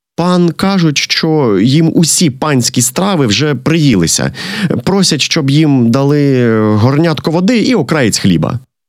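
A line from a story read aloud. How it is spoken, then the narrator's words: Servant interpreting. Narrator (Ukrainian): наймит тлумачить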